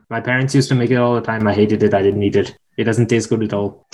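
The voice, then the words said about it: Put-on Indian accent. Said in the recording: “I'm going to say this in an Indian accent”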